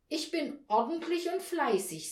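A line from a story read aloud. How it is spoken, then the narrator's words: Plain. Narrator (German): sagte sie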